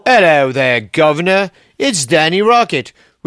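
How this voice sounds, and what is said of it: Bad put-on English accent. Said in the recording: “with a bad English accent ... I want to speak in a bad English accent”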